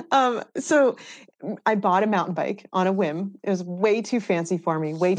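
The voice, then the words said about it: Thick Massachusetts accent. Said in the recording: “I just have a really thick Massachusetts accent”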